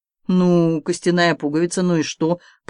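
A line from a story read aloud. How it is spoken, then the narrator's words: Soldier grumbling. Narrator (Russian): проворчал артиллерист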